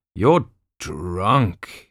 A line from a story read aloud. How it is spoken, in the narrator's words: he barked at Jeanne